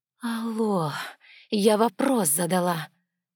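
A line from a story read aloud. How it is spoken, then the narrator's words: Hissed. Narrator (Russian): прошипела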